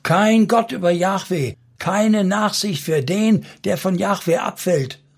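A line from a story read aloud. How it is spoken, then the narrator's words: Calling out. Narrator (German): rief Phinees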